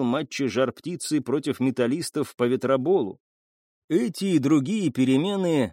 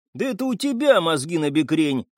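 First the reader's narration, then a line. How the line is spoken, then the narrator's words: Snapping teenager. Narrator (Russian): огрызнулся подросток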